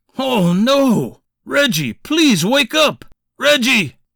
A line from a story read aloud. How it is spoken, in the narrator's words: Charles screamed